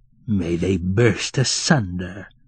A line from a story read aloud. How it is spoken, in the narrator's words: growled sleepy Fiekla, angrily